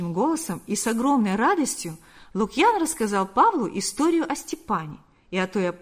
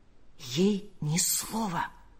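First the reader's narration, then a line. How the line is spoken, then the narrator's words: Whisper. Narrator (Russian): прошептал он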